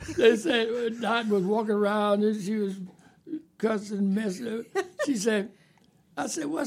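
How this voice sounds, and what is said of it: Usual voice. Nothing is said of it.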